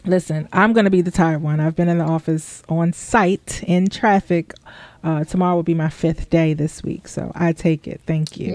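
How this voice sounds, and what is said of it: Tired, exhausted-sounding voice. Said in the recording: “I'm actually exhausted. I'm sure you guys can hear it in my voice. I'm a little tired tonight.”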